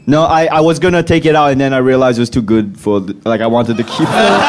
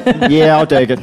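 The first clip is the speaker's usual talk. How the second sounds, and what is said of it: Put-on Australian accent. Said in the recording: “That's a good Australian accent. ... I'm trying to do an accent.”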